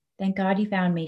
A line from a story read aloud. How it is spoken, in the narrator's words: she whispers